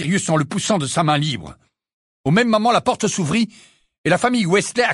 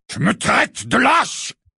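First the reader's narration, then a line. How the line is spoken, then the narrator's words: Roared. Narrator (French): rugit Sirius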